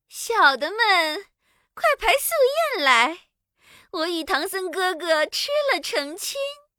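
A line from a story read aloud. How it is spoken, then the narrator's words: Calling out. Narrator (Chinese): 叫道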